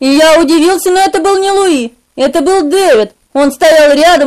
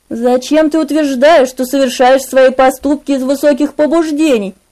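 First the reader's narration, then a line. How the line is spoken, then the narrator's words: Sympathetic, gentle question. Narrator (Russian): Спросил он, но так сочувственно, так мягко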